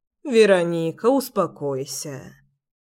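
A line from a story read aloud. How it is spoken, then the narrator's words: Soft. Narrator (Russian): мягко сказала она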